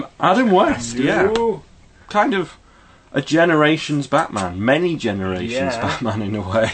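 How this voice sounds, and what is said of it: Usual voice. Nothing is said of it.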